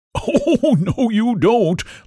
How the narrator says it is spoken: laughed Pumpkin with a thick, throaty sort of voice

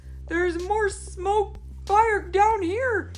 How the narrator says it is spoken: yelled

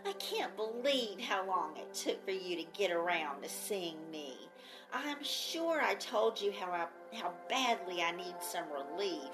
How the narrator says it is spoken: she whined

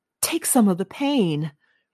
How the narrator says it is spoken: he gasped

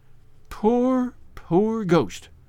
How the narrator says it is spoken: she murmured

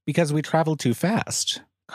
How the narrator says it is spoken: Carhill said flatly

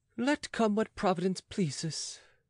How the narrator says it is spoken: he sighed

